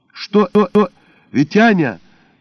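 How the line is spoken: Panicked yell. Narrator (Russian): заорала я, чувствуя, как моментально ослабли и мелко задрожали ноги

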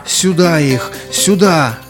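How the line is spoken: Hoarse desperate shout. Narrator (Russian): хриплым, отчаянным голосом закричал он привратнику

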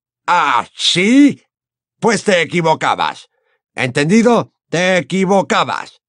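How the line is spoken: Shouted. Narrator (Spanish): gritó Slughorn

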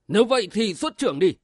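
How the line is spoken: Enraged shout. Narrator (Vietnamese): Bách Thiện bị trầm trọc, văn tia máu quát lên

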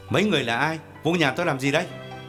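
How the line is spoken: Loud question. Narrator (Vietnamese): Gã lớn tiếng hỏi

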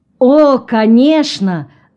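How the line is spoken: Official exclaiming. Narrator (Russian): воскликнул чиновник

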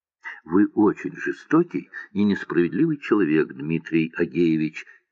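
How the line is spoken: Quiet. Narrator (Russian): тихо сказала Муся

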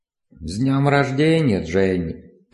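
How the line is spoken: Creaky, indifferent voice. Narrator (Russian): произнесла она скрипучим, безучастным голосом

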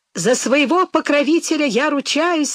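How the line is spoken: Joyful monk chiming in. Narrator (Russian): радостно подхватил монах

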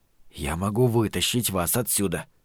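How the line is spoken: Whisper. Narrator (Russian): прошептал

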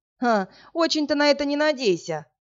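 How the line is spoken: Scoffing. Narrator (Russian): хмыкнул Власик

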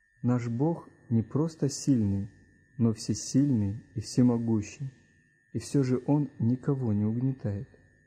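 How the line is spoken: Plain, father. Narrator (Russian): сказал папа

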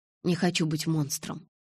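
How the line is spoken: Quiet. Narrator (Russian): тихо сказал Эдвард

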